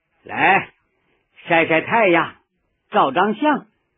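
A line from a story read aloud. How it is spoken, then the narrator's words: Relaxed, at ease. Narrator (Chinese): 毛泽东浑身轻松地说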